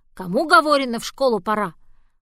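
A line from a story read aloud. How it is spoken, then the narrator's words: Grandmother's gruff bark. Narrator (Russian): бабушка не рявкнет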